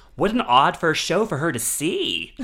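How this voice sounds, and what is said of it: Imitates another person's voice. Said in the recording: “Your Joshua impression is better than your Cher impression.”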